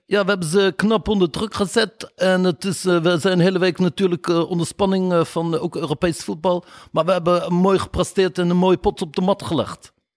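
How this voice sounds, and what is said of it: Imitated Moroccan-Dutch accent. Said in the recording (Dutch): “Die heeft dan een Marokkaans accent.”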